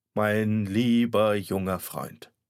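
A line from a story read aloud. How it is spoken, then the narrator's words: Sad doctor clearing throat. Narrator (German): Da sah mich der Doktor traurig an und räusperte sich und sagte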